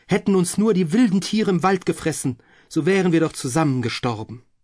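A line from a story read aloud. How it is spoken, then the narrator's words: Exclaimed. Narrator (German): rief sie aus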